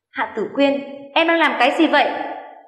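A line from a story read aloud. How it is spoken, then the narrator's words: Angry shout. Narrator (Vietnamese): anh tức giận quát lớn cô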